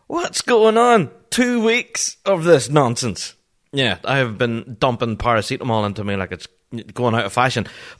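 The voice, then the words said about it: Sick, unwell-sounding voice. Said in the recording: “you may still hear it in my voice. I'm still got the lurgy.”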